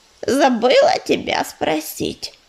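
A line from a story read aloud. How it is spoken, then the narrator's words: Creaky cat's voice. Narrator (Russian): проскрипела бурая кошка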